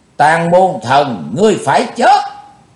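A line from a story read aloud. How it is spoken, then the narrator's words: Shout. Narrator (Vietnamese): tiếng hét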